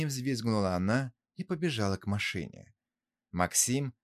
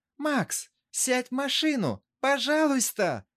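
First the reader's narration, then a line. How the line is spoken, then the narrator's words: Shouting. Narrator (Russian): закричала Светлана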